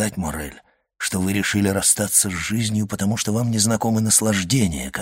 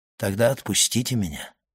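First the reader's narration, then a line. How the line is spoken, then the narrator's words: Gloomy. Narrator (Russian): мрачно сказал Максимилиан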